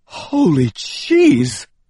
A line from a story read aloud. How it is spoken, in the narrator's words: I cried